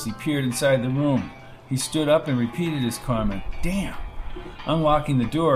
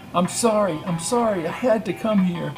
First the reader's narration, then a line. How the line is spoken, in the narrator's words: she said as she cried